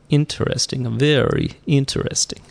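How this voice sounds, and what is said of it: Put-on Russian accent. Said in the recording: “I lapsed into my Russian accent there.”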